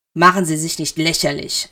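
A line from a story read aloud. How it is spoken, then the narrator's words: Snapped. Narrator (German): schnauzte Cerys ihn an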